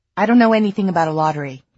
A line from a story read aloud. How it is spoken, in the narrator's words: Kit snapped